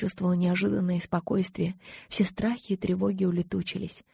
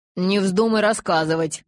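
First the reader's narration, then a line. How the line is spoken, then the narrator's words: Growl from below. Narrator (Russian): прорычал снизу Эммет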